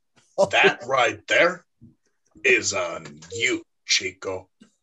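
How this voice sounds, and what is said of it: Deliberately bad put-on accent. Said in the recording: “don't you blame me for this bad accent ... That was a bad accent.”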